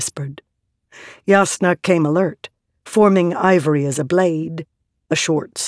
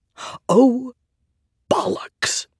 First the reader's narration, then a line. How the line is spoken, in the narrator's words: he whispered